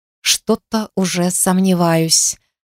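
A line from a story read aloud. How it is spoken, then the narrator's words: Muttered. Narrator (Russian): пробормотала я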